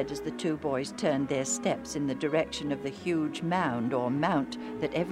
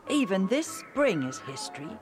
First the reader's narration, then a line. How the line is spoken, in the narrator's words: Joe said